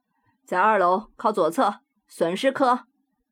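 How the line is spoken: Loud. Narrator (Chinese): 他大声回答

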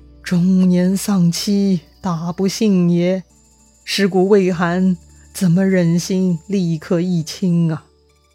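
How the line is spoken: Sighing. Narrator (Chinese): 刘备叹了一口气

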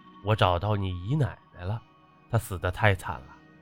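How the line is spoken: Gloomy sighing speech. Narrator (Chinese): 这五爷 阴郁着脸 叹气 说道

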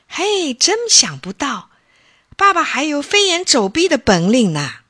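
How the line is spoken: Astonished, nearly shouting. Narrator (Chinese): 小飞见了，惊奇的差点叫起来

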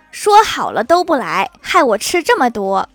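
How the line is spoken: Loud. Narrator (Chinese): 大声说

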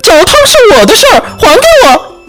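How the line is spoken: Shrieking. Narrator (Chinese): 松鼠尖叫

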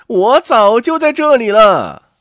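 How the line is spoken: Calling out. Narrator (Chinese): 刺猬和他的女人总叫

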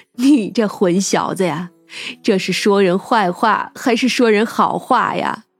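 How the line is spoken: Snickering laugh. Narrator (Chinese): 范姑姑扑哧一笑

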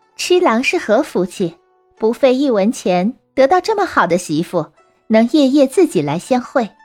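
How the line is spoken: Laughing. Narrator (Chinese): 女郎笑着说

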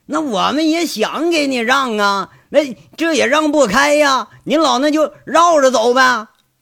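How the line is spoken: Gloating shouts. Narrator (Chinese): 在那喊着，好像还有点幸灾乐祸的喊

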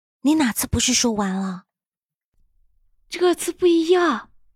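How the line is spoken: Quiet. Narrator (Chinese): 陆眠同样小声

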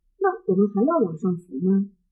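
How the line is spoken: Plain. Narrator (Chinese): 我问

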